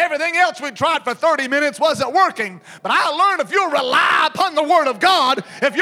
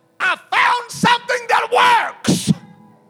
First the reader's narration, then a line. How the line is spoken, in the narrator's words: I shouted to the crowd